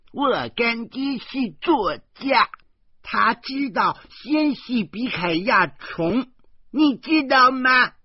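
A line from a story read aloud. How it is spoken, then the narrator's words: Loud, arguing. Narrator (Chinese): 和他争论路程远近的问题，他大声说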